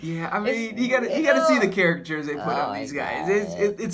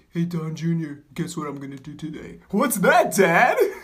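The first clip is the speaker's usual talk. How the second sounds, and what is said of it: Poor imitation of another person's voice. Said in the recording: “That was a terrible Trump. ... What accent was that?”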